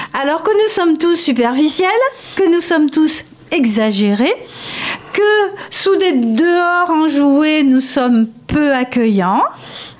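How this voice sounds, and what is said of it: Provençal French accent. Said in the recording (French): “nous, les Provençaux, tous les Provençaux... moi, qui ai l'accent que vous entendez”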